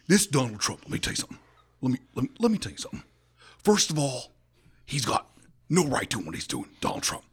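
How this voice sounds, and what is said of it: Imitates another person's voice. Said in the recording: “your Greg Nichols impersonation ... here's my impression of him”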